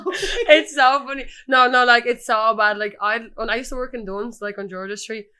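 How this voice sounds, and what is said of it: Strong working-class Dublin accent. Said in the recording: “the Dublin accent ... My accent's so bad. I'm like such a knacker.”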